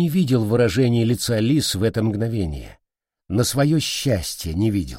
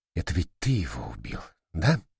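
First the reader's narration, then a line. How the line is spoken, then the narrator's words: Very quiet question. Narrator (Russian): очень тихо спросила Шаса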